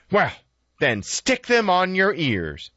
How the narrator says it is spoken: snapped Esther

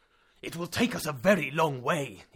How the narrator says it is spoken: exclaimed

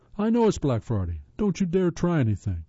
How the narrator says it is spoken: he yelled

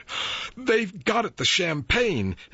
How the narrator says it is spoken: exclaimed Mrs

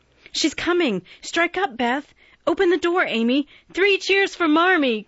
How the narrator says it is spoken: cried Joe, prancing about

